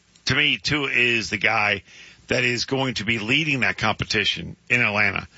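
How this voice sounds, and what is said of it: Strained, hoarse voice. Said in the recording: “I'm losing my voice. ... your voice is struggling a little bit.”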